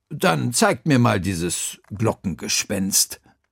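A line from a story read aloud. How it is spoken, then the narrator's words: Plain. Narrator (German): sagte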